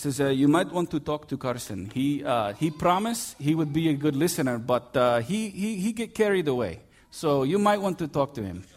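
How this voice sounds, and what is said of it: Put-on Russian accent. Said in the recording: “I'll do my best Russian accent.”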